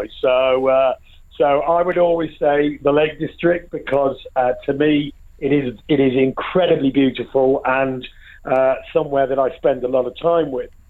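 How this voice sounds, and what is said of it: Northern English accent. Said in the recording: “you can probably tell by the accent ... I'm a real northern boy”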